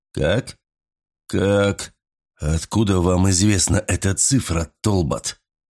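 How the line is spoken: Hoarse whisper. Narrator (Russian): Сипло прошептал он

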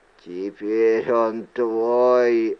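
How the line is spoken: Hoarse voice. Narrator (Russian): раздался его хриплый голос

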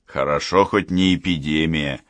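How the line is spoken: Snorting man. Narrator (Russian): хмыкнул Кричко

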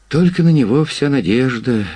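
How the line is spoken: Sighed. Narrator (Russian): вздохнул Ремизов

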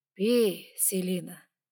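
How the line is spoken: Gentle, smiling dragon. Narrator (Russian): мягко улыбнулся дракон

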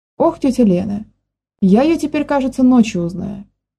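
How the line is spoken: Laughing. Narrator (Russian): засмеялась Маня

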